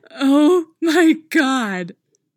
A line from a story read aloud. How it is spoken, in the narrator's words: Stiles says, busting out with laughter